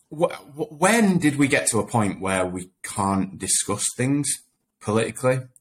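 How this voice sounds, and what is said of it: Sheffield accent. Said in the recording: “I grew up in Sheffield, always lived in Sheffield ... you'd never guess with that accent”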